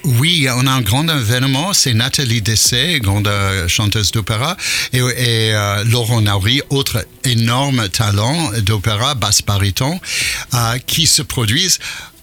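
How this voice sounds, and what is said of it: American accent speaking French. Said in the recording (French): “on entend votre accent, parce que vous êtes américain ... Mais j'arrive pas à perdre. ... Et l'accent.”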